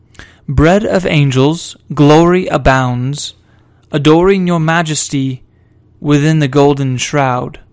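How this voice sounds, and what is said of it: Put-on British accent. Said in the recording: “I'm going to do these poems in a British accent”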